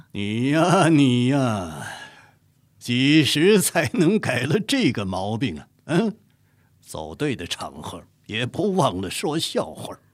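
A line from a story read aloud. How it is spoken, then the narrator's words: Hearty laughter. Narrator (Chinese): 乾隆哈哈大笑，说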